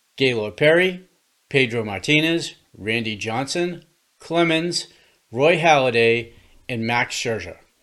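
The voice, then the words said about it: Boston accent. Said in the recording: “being from Boston, you may notice from the accent”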